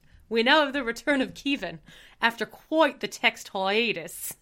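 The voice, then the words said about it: Put-on Australian accent. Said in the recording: “You have a very good accent. I'm impressed. ... I had to work on my Australian accent ... a really shitty like New Zealand / Australian accent”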